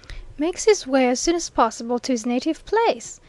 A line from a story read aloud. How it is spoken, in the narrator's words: exclaimed Mr